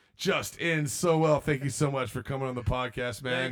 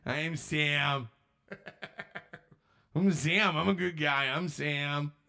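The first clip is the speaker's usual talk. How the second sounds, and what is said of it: Imitates another person's voice. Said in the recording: “your impersonation”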